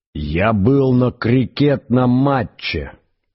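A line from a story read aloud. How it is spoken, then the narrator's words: Roaring male voice. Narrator (Russian): проревел он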